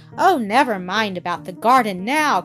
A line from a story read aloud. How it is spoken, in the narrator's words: cried Peter